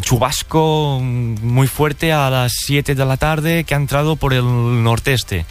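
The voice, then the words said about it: Southern Spanish accent. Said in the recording (Catalan): “T'està quedant accent del sud ... T'està quedant accent de Huelva.”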